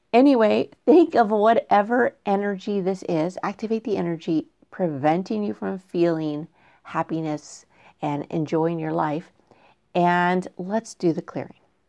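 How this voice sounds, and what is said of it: Voice becoming hoarse, strained. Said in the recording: “I feel like I'm starting to lose my voice a little bit”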